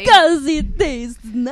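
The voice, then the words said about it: Weird put-on accent. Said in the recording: “doing ... A weird accent.”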